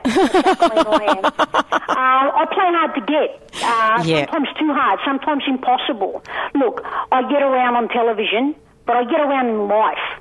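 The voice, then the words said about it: Broad Australian accent, mixed. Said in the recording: “My accent's from Broadmeadows ... my accent is half Yobbo, half my parents ... It's a mishmash”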